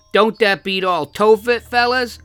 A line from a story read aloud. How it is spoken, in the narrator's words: cried the man